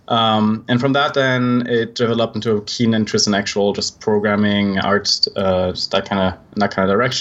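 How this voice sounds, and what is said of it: Swiss accent in English. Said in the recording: “I'm actually Swiss, which you can probably tell by my accent ... It's never going away. I've been told it's charming”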